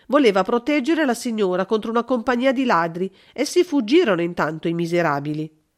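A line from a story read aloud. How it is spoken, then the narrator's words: Exclaimed. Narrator (Italian): esclamò una comare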